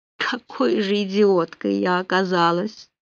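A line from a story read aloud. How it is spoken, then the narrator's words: Dejected mutter. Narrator (Russian): уныло пробормотала Полли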